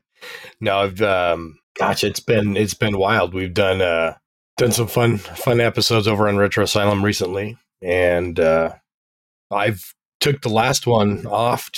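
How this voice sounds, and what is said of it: Hoarse, partly lost voice. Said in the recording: “I lost my voice last night, so I almost sound as sexy as Mads, but not quite ... this new tone of voice”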